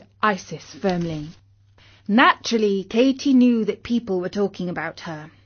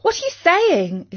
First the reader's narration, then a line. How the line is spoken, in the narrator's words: exclaimed Katie